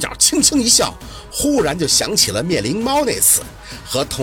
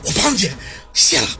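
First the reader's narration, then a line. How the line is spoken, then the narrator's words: Breathless. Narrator (Chinese): 秦森喘气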